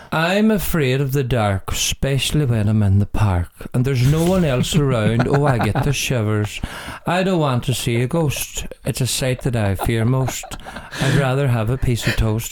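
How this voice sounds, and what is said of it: Sung imitation of an Irish country singer. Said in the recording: “I perform the song in my best Daniel O'Donnell impersonation ever ... a fantastic country music singer and ambassador for country music in Ireland ... he would sing it like this”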